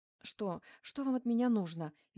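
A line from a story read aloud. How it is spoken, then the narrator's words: Frightened, tearful. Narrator (Russian): испуганно заговорила она, и из глаз ее непроизвольно потекли слезы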